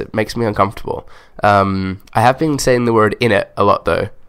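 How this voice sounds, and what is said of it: Slight English accent, Australian-sounding. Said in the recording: “you may have a slight English accent ... I sound Australian here ... are you Aussie?”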